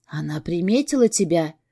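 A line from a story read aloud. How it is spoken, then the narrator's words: Whisper. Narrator (Russian): шепнула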